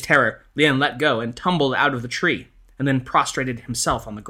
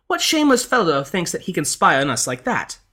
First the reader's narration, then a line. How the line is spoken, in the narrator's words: the lady cried out